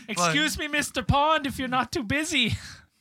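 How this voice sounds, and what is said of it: Bad put-on Canadian accent. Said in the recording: “I have the worst Canadian accent.”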